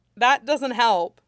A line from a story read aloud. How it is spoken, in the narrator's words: he laughed lightly